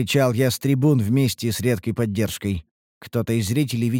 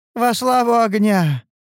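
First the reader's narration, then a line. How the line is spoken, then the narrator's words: Tired but pleased shout. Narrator (Russian): прокричала она устало, но довольна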